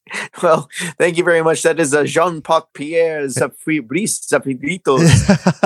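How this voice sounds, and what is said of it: Put-on French accent drifting Spanish. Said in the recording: “French ... going a little Spanish twang there”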